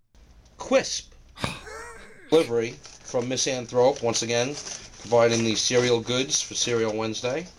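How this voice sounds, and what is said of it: New York or New Jersey accent. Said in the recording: “What accent is that? ... New Yorkie. ... Or Jersey-ish.”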